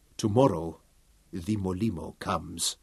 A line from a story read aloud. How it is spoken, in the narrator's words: Sepu warned his brother softly